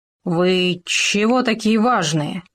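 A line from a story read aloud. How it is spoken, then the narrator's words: Hoarse wheeze. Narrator (Russian): прохрипел он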